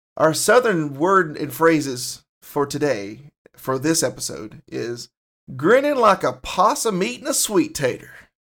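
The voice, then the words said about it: Put-on Southern US accent. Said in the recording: “I'm going to have to get into my Southern accent”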